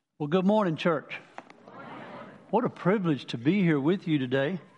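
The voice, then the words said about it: Southern US accent. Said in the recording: “where's that accent from? You're not from around these here parts, are you? Well, I'm from Manning originally, down the lower part of the state.”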